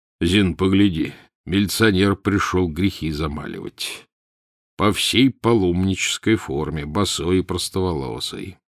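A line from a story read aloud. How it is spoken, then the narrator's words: Ironic deep rumble. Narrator (Russian): Иронически пробасил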